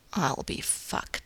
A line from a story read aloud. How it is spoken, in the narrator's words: he mutters